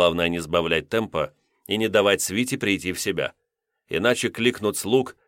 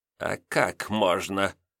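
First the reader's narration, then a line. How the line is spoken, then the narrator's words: Creaky old man's voice. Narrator (Russian): проскрипел Танеев, пожилой и седовласый мужчина лет 60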